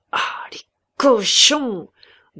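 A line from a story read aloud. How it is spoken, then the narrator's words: Angry growl, soldier. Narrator (French): grognait Prosper, en qui le sang du soldat qu'il était encore l'avant-veille s'échauffait à voir une abomination semblable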